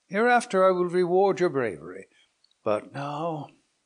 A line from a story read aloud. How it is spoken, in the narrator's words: continued he with a sigh